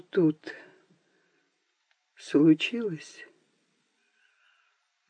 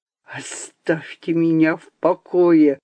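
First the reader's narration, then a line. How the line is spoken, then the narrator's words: Hissed. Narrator (Russian): прошипел он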